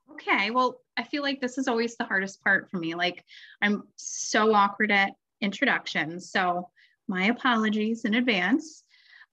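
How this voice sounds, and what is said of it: Slight non-Californian accent. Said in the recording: “I just love your little accent. And it just makes the California person in me so excited.”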